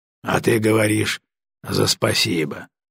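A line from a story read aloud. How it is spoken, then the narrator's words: Grumbled. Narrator (Russian): проворчал он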